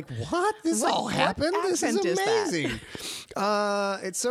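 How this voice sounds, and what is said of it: Usual voice. Nothing is said of it.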